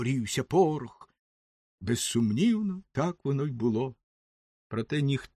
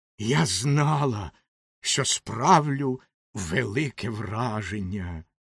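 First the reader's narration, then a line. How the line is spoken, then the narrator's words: Hissing. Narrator (Ukrainian): прошипіла Ракета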